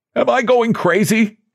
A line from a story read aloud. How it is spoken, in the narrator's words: Suddenly he cried